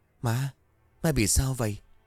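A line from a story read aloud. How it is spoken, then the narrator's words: Trembling question. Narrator (Vietnamese): run rẩy hỏi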